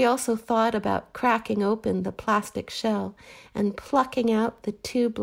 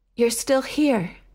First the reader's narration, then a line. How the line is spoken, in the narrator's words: he panted